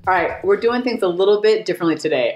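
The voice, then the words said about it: Excited, energetic voice. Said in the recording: “I'm so excited. Woo! Can you hear it in my voice?”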